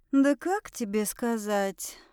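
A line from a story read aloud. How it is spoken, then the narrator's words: Dejected whisper. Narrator (Russian): Прошептала я, понуро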